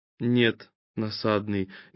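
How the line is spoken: Soft but stern. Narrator (Russian): мягко и строго проронил согревающий

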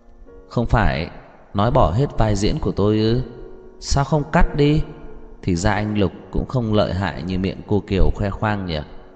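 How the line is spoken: Fearless, light laugh. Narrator (Vietnamese): Lâm Thị Ý khẽ cười một tiếng, không sợ hãi chút nào, mở miệng nói

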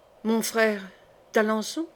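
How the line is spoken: Murmured. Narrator (French): murmura Marguerite

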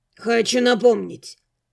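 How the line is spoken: Sharp interjection. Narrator (Russian): резко вмешался в разговор Ньер

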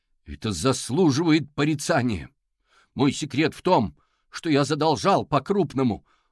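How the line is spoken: Shouting to a hall. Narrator (Russian): прокричал он в зал

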